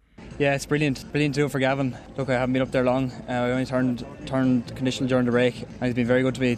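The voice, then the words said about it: Irish Wexford accent. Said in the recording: “We can tell by your accent, Wexford man?”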